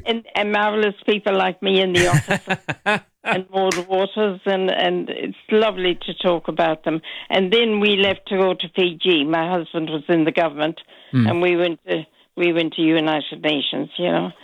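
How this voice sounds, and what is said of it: Irish accent from western Ireland. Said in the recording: “your accent ... It's Irish. ... It is Irish. ... Very Irish. ... From Mayo. ... in Connacht, in the west of Ireland.”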